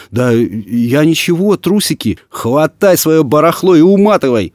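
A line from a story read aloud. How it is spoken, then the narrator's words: Yelling. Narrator (Russian): Орала Татьяна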